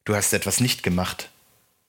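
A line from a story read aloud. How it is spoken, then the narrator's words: Plain. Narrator (German): sagte das Gesicht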